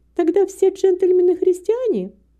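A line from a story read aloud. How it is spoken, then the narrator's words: Amused laughing. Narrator (Russian): Молодой человек рассмеялся над ее настойчивостью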